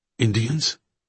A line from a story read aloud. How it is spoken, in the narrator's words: The word came out more nervously than he had intended